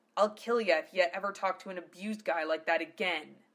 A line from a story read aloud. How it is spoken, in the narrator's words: he muttered through clenched teeth